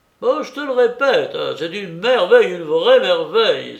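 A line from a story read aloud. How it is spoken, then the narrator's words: Exclamation. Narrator (French): s'écria Kupfer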